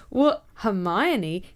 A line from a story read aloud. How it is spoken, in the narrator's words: He laughed nervously